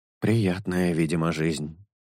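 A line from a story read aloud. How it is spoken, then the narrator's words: Sighing. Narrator (Russian): вздохнул Паттера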